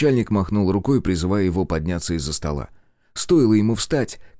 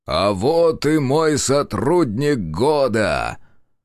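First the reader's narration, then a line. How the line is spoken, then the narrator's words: Loud booming bass, smiling. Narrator (Russian): улыбающийся Баскаков, который громко пробасил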